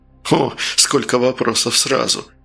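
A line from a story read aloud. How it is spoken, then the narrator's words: Laughing. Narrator (Russian): Фигаро засмеялся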